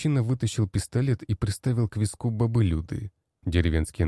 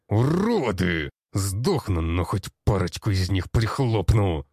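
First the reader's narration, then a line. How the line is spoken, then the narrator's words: Growl. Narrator (Russian): прорычал Петрович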